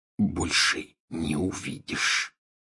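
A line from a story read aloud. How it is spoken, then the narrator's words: Whispered addition. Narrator (Russian): шепотом прибавил он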